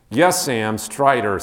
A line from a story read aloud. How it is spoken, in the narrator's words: said Aragorn